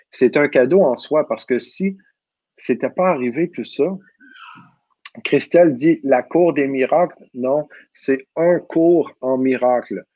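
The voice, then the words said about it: Québécois French accent. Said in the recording (French): “mon accent québécois”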